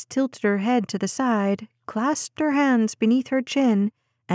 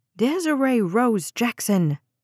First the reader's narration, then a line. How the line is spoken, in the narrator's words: Jade snapped